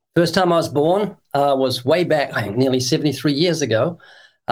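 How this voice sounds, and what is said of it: Slight New Zealand accent. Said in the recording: “I was born twice in New Zealand. That's why you can find a hint of an accent.”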